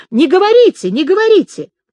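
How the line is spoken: Woman's distant scream. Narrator (Russian): И женщина, именно женщина, где-то в углу, в правой стороне закричала

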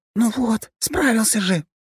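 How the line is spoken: Encouraging whisper. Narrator (Russian): шепотом приободрила его трассе

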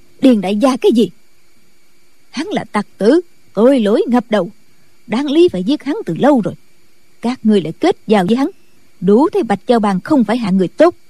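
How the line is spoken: Angry nun shouting. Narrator (Vietnamese): Định Vật sư thái tức giận quát

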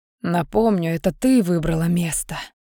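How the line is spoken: Whispered. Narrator (Russian): шепнул Альдар

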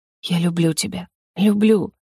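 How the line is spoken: Whispered. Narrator (Russian): шептал Ар

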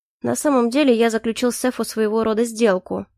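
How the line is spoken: Chuckling. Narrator (Russian): хмыкнул Калипсо

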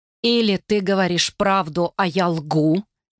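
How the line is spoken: Through gritted teeth. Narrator (Russian): процедила Эсбер

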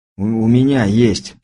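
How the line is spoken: Hoarse rasp. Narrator (Russian): прохрипел я

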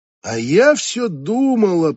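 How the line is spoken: Drawn out. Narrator (Russian): протянула Конвей

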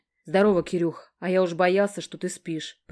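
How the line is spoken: Growl in ear. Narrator (Russian): прорычал мне в ухо

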